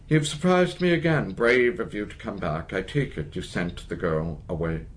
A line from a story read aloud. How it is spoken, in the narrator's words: The man says gravely in the same language